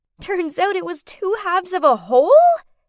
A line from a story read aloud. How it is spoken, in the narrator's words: She shrieked